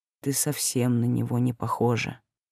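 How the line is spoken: Low muffled voice. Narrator (Russian): глухо произнёс

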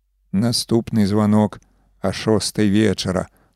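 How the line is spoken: Muttered. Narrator (Belarusian): прамармытаў старшыня выбарчай камісіі

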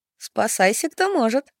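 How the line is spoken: Giggling. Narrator (Russian): хихикнула Ада

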